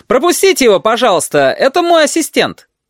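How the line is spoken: Shouted. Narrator (Russian): он прокричал

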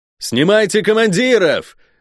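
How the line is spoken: Yelling. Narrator (Russian): орал я

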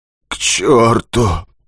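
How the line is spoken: Hoarse rasp. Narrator (Russian): хрипит геолог

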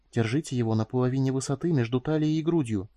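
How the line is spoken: Whispered advice. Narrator (Russian): посоветовала шепотом

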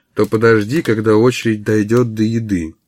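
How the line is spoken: Muffled voice. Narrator (Russian): глухим голосом произнес Эмори

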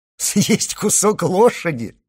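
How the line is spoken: Laughing question. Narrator (Russian): спросил, смеясь, Морсер

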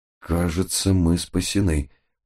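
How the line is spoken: Muttered. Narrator (Russian): пробормотал я

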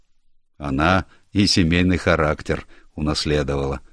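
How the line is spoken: Dry. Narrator (Russian): сухо добавил мистер Форбс

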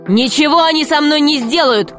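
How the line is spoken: Shout. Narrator (Russian): крикнул Греко

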